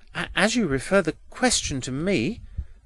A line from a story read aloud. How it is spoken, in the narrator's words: stammered Edwin